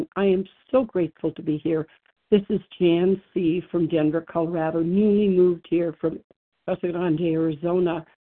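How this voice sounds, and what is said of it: Hoarse, strained laryngitis voice. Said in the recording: “I have a little laryngitis”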